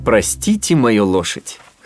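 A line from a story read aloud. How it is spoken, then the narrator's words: Chuckle. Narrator (Russian): хохотнул Феб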